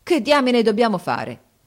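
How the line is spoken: Exclamation. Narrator (Italian): esclamò Harris

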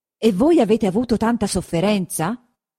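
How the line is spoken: Exclaimed. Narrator (Italian): esclamò il conte Attilio

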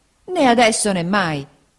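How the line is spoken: Exclaimed. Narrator (Italian): esclamò Peggotty

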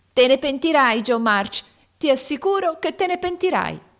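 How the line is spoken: Shouted. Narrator (Italian): Amy gridò

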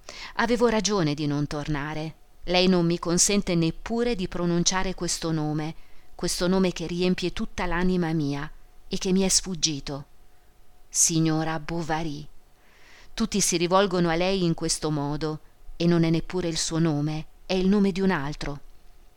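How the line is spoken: Melancholy voice. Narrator (Italian): disse con voce melanconica

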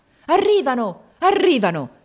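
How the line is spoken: Joyful shout. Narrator (Italian): ripeté con un grido di gioia il capitano

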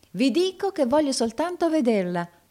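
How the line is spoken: Customer exclaiming. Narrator (Italian): esclamò il cliente

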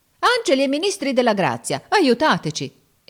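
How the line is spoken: Exclaimed. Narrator (Italian): esclamò Giorgio

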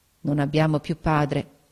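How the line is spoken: Murmured. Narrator (Italian): mormorò

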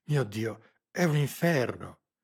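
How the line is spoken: Bewildered, incredulous, frightened exclamation. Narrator (Italian): esclamò in un tono che tradiva tutto il suo sconcerto, la sua incredulità, la sua paura

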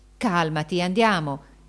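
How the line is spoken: Exclaimed. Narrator (Italian): esclamò

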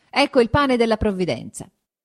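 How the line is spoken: Shouting. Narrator (Italian): gridando

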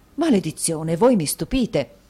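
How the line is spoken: Exclaimed. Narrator (Italian): esclamò Mantalini

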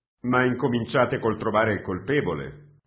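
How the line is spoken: Dry advising tone. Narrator (Italian): consigliò con tono asciutto

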